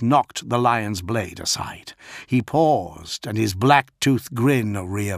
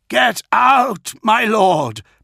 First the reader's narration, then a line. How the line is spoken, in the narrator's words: Pollux screamed